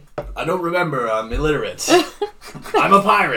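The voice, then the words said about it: Bad pirate voice impression. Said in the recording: “I'll do a pirate impression that will also be terrible”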